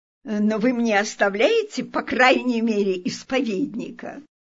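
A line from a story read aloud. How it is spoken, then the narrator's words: Playful joking tone. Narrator (Russian): Мадам де Грамон, чтобы разогнать неприятное впечатление, сказала шутливым тоном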